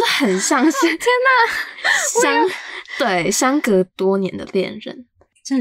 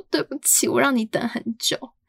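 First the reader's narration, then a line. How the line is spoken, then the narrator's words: Tearful speech. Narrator (Chinese): 我姐开始哭，就说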